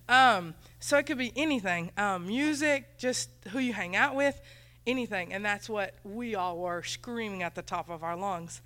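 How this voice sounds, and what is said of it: Country accent. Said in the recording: “My accent is horrible, sorry. It's country and it's just bad English.”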